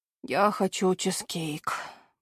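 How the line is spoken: Mumbling. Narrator (Russian): бормочет Зейн

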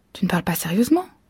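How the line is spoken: Plain. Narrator (French): dit-elle

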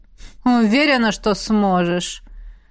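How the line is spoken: Snort. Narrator (Russian): фыркнул посол

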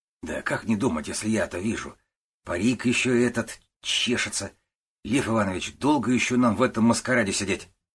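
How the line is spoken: Whisper through twisted lips. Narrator (Russian): шептал, кривя губы Десятов

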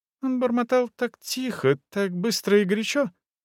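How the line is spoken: Thin-voiced explanation. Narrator (Russian): тонким голосом объяснил Везин

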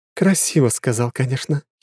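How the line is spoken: Giggling. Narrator (Russian): хихикнула Лора

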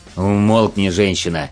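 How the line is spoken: Growled. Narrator (Russian): рыкнул на нее Конрад

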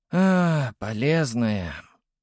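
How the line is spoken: Sighing. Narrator (Russian): вздохнул

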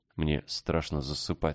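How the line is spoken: Plain. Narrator (Russian): сказала Ева

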